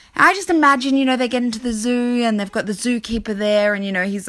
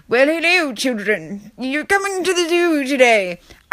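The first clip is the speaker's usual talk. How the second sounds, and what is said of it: Put-on unidentifiable accent. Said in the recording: “I have no idea what accent that was.”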